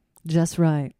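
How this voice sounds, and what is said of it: Imitates another person's voice. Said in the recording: “That's my Oprah impression.”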